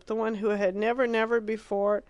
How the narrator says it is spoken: cried Philip

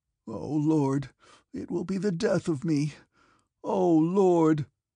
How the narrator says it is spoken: moaned the man in a louder voice

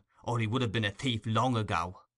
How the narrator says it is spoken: muttered the man

